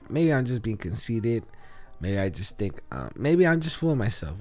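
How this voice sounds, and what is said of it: Raspy, sick-sounding voice. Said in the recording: “As you could probably tell by my voice, I'm a little sick... Just my voice sounds a little raspy”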